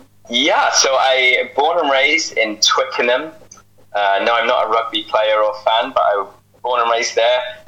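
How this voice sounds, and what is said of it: Non-Canadian accent. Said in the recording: “that's not a Canadian accent”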